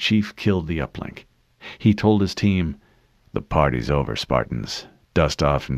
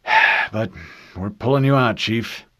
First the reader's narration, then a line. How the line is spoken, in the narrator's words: He sighed and added